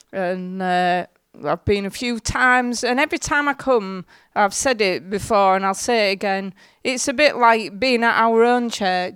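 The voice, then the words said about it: Hull accent, slightly croaky voice. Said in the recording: “sorry if I croak a bit ... I'm from Hull. I was brought up in Hull. Well, you probably can tell by the accent.”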